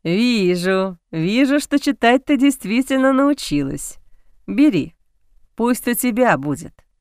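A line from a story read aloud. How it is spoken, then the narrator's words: Father, laughing. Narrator (Russian): Отец, смеясь, сказал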